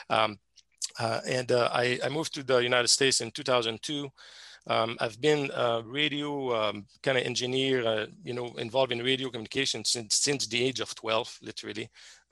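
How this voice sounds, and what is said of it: Thick Québécois French accent. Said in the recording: “I'm a chemist by education from Quebec, Canada, from the French province of Quebec, Canada. So that's why I have a thick accent.”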